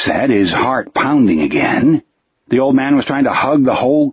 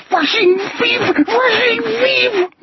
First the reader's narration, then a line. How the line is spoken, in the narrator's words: the old man screeched, and tears crawled into the wrinkles on his cheeks